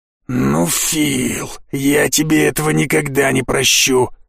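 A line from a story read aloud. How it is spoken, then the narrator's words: Angry whisper. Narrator (Russian): зло прошептал Гудрон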